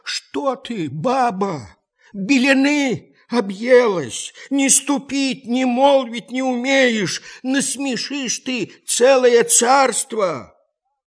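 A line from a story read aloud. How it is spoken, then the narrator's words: Frightened pleading old man. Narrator (Russian): Испугался старик, взмолился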